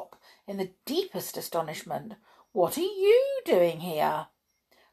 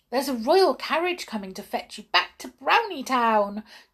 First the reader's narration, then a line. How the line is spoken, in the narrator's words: cried Peronel, hopping around with excitement